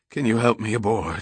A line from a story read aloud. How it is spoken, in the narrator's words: he rasped